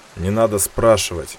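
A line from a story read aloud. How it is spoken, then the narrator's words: Commander's sigh. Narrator (Russian): вздохнул командир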